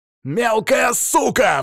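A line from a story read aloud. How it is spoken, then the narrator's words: Roared. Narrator (Russian): взревел Шейн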